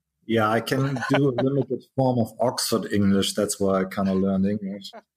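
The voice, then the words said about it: Pronounced German accent. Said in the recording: “With a very pronounced German accent.”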